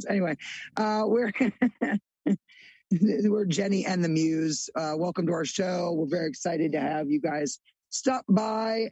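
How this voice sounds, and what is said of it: Slightly strained, losing voice. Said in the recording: “losing my voice just a little bit ... I was screaming ... now I can't talk”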